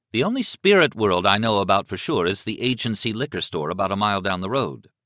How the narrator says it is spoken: Liz said evenly

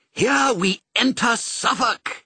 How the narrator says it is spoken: he said triumphantly

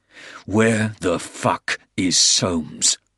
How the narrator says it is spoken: Porter growled

